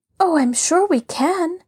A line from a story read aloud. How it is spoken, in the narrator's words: Laura declared eagerly